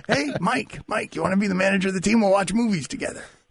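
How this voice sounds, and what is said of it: Poor imitation of another person's voice. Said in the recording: “Do the Sampson voice ... Such a terrible Samson. ... Oh, man, that was terrible.”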